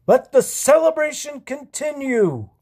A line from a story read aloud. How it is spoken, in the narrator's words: he yelled